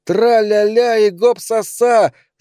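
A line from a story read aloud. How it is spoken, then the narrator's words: Male shout. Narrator (Russian): закричал он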